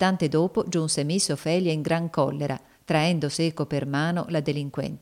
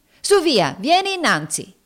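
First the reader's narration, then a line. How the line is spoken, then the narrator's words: Woman shouting. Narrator (Italian): gridava essa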